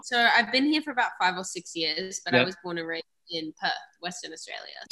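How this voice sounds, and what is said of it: Hybrid Australian-American accent. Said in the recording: “you've got a little bit of a hybrid accent going on at the moment, being from Australia and having lived in the US”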